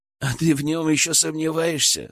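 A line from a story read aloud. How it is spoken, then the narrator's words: Skeptical snort. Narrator (Russian): хмыкнул Илья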